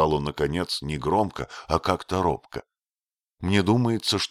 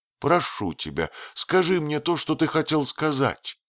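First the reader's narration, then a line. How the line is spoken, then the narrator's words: Pleading. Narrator (Russian): взмолилась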